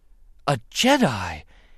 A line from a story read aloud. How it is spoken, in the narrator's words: he gasped